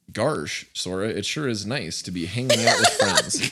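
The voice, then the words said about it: Goofy cartoon character voice. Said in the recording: “my whirlwind Goofy impression”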